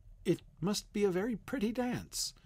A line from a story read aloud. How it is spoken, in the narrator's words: said Alice timidly